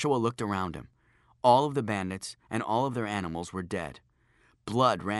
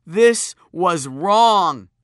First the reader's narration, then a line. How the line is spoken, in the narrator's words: screeched